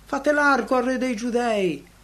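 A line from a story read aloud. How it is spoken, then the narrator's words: Scornful shout. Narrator (Italian): il grido sprezzante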